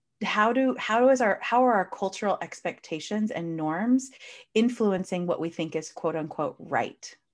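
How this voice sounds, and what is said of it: American accent. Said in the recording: “I'm clearly from the United States. You can hear from my accent.”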